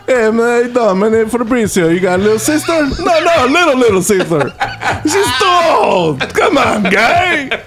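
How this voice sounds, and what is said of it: Spot-on put-on Italian accent. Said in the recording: “I've never heard this accent ... The Italian? ... Spot on Italian ... I never heard you do this shit this good”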